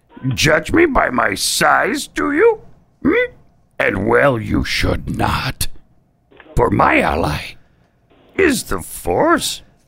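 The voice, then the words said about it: Yoda character voice. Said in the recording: “Name this Star Wars character impersonation. ... Oh, Yoda.”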